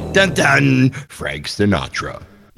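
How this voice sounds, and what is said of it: Movie trailer announcer voice. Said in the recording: “that's my trailer voice.”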